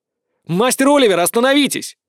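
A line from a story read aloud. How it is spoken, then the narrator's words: Yelling. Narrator (Russian): заорал я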